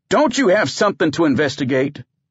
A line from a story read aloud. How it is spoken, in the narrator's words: barked